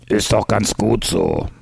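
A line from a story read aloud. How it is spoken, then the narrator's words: Grumbling. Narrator (German): brummte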